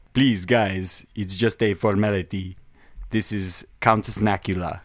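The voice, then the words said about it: Vampire character voice. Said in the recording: “vampire accent... Or like a Laszlo or a Nandor... in a vampire voice”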